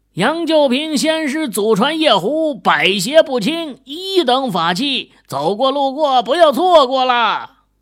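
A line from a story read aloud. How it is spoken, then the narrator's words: Loud hawker's shout. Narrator (Chinese): 店家也是扯着嗓子喊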